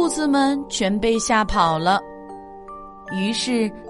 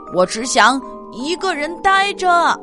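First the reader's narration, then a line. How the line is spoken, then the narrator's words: Frantic roar. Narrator (Chinese): 大熊发疯似的大吼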